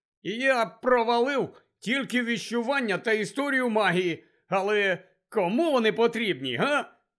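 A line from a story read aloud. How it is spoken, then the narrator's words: Cheerful announcement. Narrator (Ukrainian): Радісно повідомив він Гаррі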